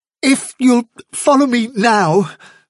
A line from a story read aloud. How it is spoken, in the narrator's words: replied Hazel desperately